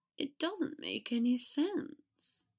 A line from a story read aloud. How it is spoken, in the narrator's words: he said weakly